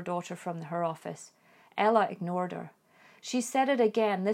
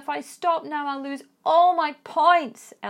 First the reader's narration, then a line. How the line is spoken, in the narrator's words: Ella shouted back